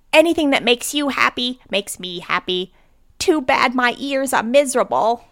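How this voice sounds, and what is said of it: Cartoon character Meowth voice. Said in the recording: “That's my terrible Meowth accent ... No, it's a pretty good one.”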